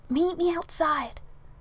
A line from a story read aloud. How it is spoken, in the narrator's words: Merlin nervous whispering